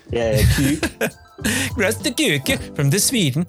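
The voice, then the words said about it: Put-on Swedish accent. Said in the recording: “Shout out to our Swedish listeners ... I'm sorry for the accent.”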